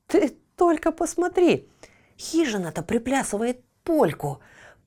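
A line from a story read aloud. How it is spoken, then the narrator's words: Whisper. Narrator (Russian): прошептал Ниточка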